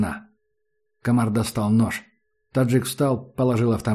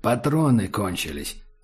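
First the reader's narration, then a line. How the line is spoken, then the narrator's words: Quiet speech. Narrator (Russian): сказал таджик негромко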